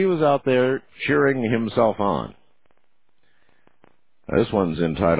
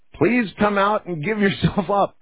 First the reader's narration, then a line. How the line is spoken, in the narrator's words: shouting